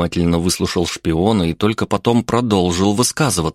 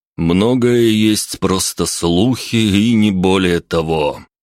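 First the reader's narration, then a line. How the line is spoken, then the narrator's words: Gloomy comment. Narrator (Russian): мрачно прокомментировал Трубецкой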